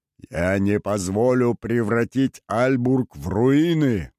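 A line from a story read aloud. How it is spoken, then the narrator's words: Roar. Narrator (Russian): взревел Синклер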